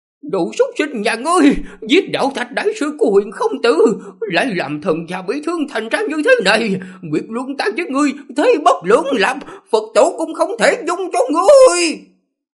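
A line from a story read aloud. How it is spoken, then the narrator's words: Hoarse pained scream. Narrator (Vietnamese): giọng nói khàn khàn khó nghe, đau đớn hét lên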